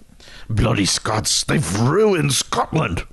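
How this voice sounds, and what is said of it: Scottish brogue, Groundskeeper Willie impression. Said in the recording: “whip out your Scottish brogue ... Groundskeeper Willie from The Simpsons ... your go-to Scottish guy when you have to do the brogue”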